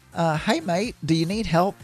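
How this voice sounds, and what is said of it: Attempted British accent, poorly done. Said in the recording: “I can't do accents, as we've discovered. It was supposed to be a British accent.”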